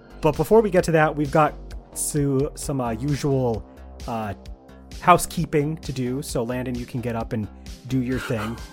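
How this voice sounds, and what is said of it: Hoarse, worn-out voice. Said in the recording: “my voice is kind of like shot”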